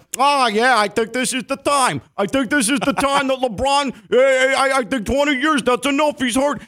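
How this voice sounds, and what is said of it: Put-on Chicago-style accent. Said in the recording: “that was more a Chicago accent than it was a Bronx accent, but close”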